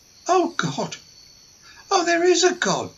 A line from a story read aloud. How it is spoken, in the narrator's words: Marie gasped